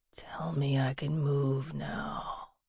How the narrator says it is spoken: said in a harsh whisper

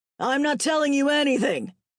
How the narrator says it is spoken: Gavin hollered

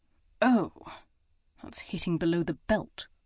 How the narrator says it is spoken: he muttered

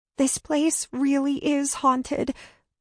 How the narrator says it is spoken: said, her voice wobbling

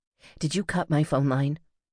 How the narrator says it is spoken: asked Sierra, voice quavering slightly

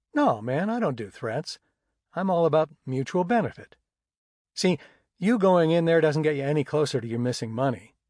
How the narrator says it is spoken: I said

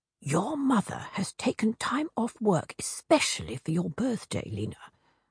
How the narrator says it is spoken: her father whispered

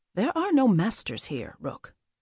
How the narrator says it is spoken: he said, his tone gentle but also firm

